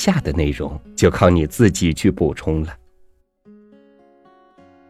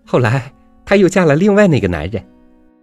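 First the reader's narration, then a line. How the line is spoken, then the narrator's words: Giggling girl. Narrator (Chinese): 两个姑娘中的一个咯咯笑着说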